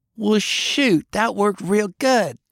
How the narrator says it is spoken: Faye squealed

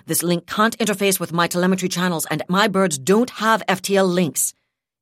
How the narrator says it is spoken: he said sharply

